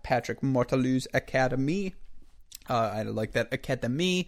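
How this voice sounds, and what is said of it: Put-on French accent. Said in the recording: “Got drawn into my French accent there.”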